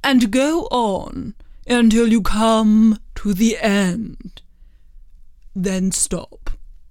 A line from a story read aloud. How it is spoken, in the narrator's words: the King said gravely